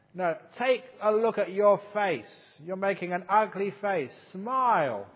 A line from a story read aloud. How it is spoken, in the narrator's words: he shouted